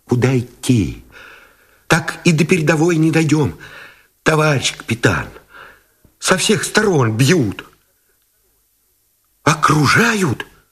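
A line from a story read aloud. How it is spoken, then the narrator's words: Frightened, breathless mumbling. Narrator (Russian): испуганно озирая небо, пронизанное свистами мин, сдерживая дыхание, забормотал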